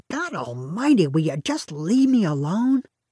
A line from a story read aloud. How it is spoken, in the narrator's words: he'd suddenly reach his limit and shake us off, growling